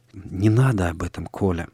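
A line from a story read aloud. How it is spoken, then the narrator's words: Quiet pleading, sighing. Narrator (Russian): тихо попросила Соня и вздохнула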